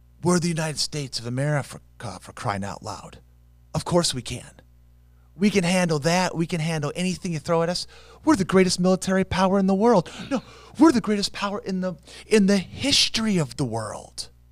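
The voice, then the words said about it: Impression of the president, boastful. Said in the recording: “I get to impersonate the president ... he said it with a lot of hubris”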